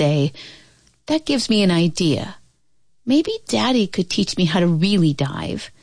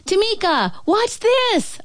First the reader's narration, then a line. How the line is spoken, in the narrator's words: I shout